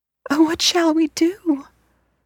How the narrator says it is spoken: cried Blue Eyes

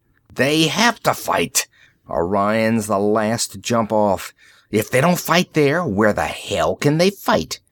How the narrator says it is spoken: Rossi swore savagely

